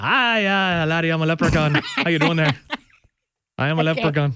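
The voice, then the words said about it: Bad put-on leprechaun accent. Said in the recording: “I'll try not to laugh at your accent. ... It's shitty, I know. ... Yeah, it's terrible.”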